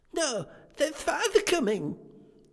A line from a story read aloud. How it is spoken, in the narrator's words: cried the two young Cratchits